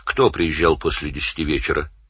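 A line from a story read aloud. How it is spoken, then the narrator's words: Plain. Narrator (Russian): спросил Данил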